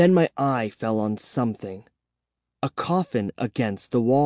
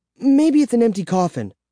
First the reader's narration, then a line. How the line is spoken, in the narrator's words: suggested excitedly